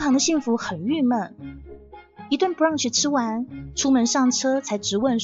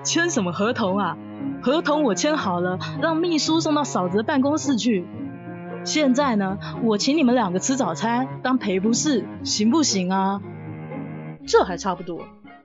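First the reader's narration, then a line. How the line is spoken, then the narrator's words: Laughing. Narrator (Chinese): 王总听了直笑说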